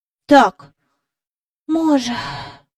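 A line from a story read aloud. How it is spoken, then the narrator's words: Quiet sigh. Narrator (Ukrainian): сказав Майкл, тихенько зітхнувши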